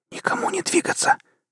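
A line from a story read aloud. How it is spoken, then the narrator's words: Whispered. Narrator (Russian): прошептал седьмой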